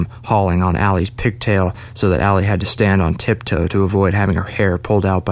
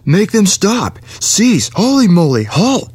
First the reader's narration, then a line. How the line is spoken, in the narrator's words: screamed